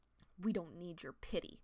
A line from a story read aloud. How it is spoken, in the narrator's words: Crowpaw growled